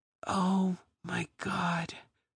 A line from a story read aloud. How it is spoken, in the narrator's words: whispered